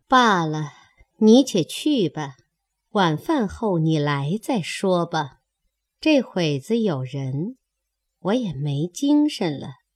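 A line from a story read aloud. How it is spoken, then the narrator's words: Laughing. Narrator (Chinese): 凤姐又笑道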